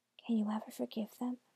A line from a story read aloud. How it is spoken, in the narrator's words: Hansel asked softly